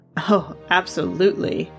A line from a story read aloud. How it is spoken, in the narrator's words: the historian said, laughing